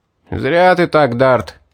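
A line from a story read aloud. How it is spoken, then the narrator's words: Shouted, several voices. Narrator (Russian): выкрикнули они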